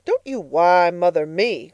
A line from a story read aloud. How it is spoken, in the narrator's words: cried Mrs